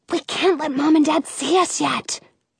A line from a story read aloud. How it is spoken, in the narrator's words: I whisper